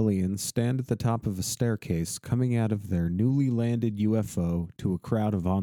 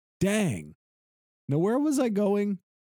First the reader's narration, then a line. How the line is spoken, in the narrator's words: An old man with a cape yells to an elderly woman